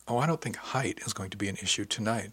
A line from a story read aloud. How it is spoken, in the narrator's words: she said softly, with a particular emphasis on the word height